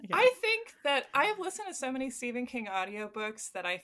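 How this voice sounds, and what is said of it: Usual voice. Nothing is said of it.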